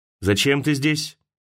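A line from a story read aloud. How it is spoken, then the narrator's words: Stern question. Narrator (Russian): строго спросил Дубровский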